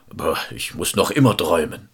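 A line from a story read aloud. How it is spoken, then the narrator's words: Monster calling. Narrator (German): das Ungeheuer rief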